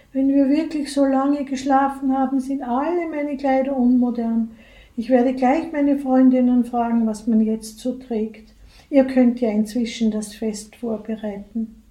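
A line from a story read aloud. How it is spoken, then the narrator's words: Sighing queen. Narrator (German): seufzt die Frau Königin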